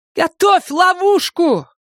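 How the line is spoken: Hurried shout. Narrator (Russian): Майор только и успела крикнуть Саше

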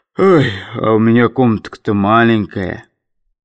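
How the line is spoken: Sighing, timid bass. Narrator (Russian): Иван Иванович вздохнул по бабье и произнес робким басом

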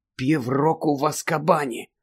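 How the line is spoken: Stunned whisper. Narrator (Ukrainian): приголомшено прошепотів Гаррі

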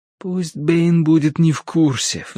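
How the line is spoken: Pleading. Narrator (Russian): взмолился я

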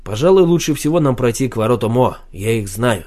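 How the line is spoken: Plain. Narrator (Russian): сказал Марсель

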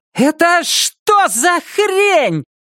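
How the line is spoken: Scream. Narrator (Russian): Лиз закричала

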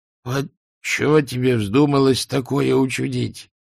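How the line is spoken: Groaning. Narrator (Russian): простонал Альберт

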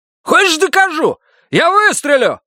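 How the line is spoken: Shout. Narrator (Russian): закричал Рогер

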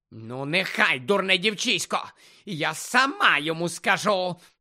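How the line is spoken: Creaky angry voice. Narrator (Ukrainian): проскрипіла вже злим голосом Амбридж

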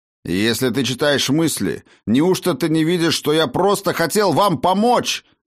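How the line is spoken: Strained shout while struggling. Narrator (Russian): Извиваясь в жестоких объятиях вновь оплетших его отростков посоха, крикнул Гудмунд

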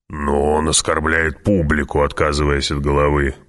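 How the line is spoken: Grumbling. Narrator (Russian): проворчал барон

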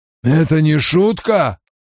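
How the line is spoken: Rasping. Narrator (Russian): прохрипел он

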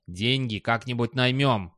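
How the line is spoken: Cold. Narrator (Russian): холодно отвечал Достабль

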